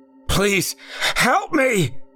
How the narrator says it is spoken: he yelled once more

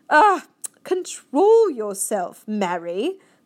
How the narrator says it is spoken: the queen said sharply

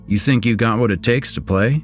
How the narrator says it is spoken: I laughed, nervously

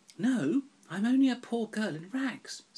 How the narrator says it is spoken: said Cinderella with a sigh

